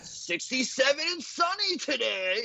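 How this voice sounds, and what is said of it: Imitates another person's voice. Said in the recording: “Such a good impression.”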